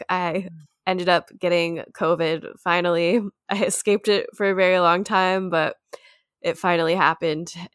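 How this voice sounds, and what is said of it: Sick, unwell-sounding voice. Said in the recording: “if you can't tell from my voice, I'm kind of sick ... You sound horrible ... you do sound very unwell.”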